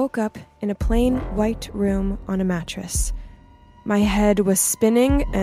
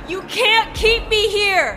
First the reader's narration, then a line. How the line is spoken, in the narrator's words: I screamed out